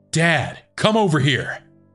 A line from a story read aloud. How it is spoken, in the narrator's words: shouting